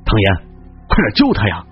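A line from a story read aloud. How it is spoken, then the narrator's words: Furious. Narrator (Chinese): 肖安大怒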